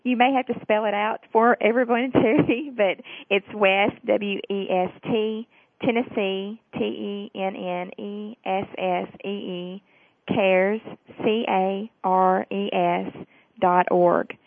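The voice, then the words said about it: Southern American accent. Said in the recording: “I apologize for my southern accent.”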